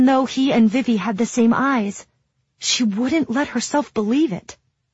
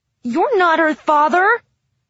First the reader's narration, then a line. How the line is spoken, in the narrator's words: Jude shouted at the man